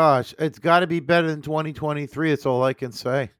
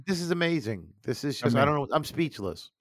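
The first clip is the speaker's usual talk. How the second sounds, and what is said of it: Sarcastic tone. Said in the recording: “I'm being sarcastic too.”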